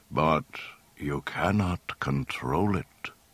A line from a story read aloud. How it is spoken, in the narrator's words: Ben told him gravely